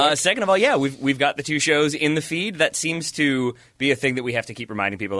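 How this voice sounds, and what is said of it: Usual voice. Nothing is said of it.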